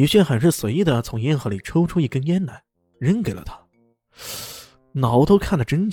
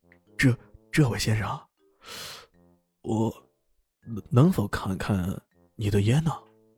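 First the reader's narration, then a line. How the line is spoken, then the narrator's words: Trembling old man. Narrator (Chinese): 老头颤声道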